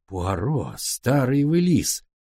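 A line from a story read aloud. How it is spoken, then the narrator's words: Exclamation. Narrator (Russian): воскликнул я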